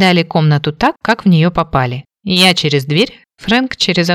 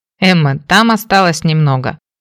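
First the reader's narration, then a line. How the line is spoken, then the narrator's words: Amused teasing snort. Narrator (Russian): хмыкнул мужчина, явно забавляясь надо мной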